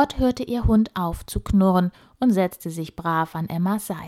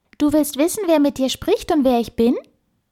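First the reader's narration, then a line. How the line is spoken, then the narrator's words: Squeaky voice. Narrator (German): piepste die Stimme erneut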